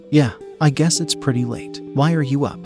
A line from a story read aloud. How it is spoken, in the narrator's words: I asked